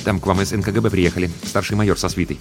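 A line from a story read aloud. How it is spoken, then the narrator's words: Hurried quiet report. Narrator (Russian): подбежал звукорежиссер Тимарцев и торопливо, негромко сообщил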